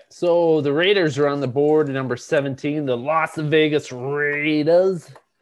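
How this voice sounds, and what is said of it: Imitates a sportscaster's voice. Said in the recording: “Doing my best ... Chris Berman impersonation there”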